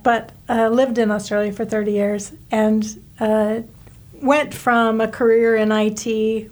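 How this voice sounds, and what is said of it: American accent. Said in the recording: “I was born in the USA, hence my accent”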